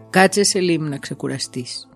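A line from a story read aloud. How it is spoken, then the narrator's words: Plain. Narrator (Greek): είπε ο στρατής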